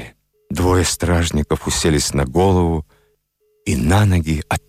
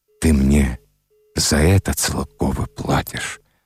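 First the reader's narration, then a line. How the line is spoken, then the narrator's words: Muttered. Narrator (Russian): пробормотал Вавило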